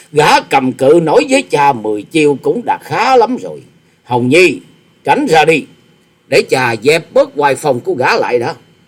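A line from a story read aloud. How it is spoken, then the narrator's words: Loud laughing voice. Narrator (Vietnamese): Tư Đồ Hạnh cười to tiếng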